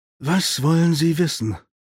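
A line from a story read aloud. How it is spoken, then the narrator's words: Sighing. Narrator (German): seufzte er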